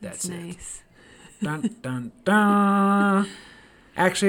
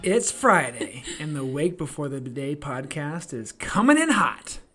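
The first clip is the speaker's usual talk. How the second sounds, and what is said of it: Dramatic movie trailer announcer voice. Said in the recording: “movie trailer voice”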